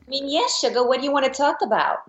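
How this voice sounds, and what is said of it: Cartoonish Harley Quinn character voice. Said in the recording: “Can you do your Harleen Quinzel accent?”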